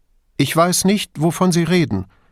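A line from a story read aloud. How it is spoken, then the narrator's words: Too loud. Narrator (German): sagte Duso zu laut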